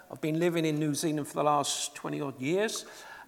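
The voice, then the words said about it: English accent. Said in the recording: “as you might tell with my accent, I'm a POM”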